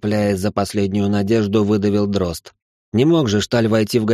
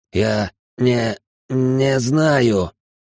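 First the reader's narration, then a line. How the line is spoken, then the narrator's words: Hoarse mutter. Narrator (Russian): хрипло пробормотал он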